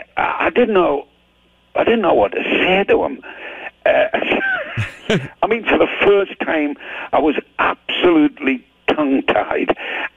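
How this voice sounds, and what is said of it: Geordie accent. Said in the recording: “they call us Geordies with our accent”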